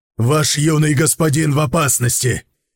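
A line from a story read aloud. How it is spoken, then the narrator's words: Shouting over shoulder. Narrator (Russian): крикнул через плечо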